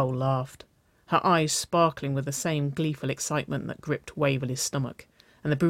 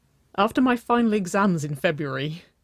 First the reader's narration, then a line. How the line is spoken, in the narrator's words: Nicole giggled